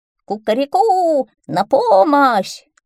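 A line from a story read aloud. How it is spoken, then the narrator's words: Shouting in a strange voice. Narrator (Russian): закричал он не своим голосом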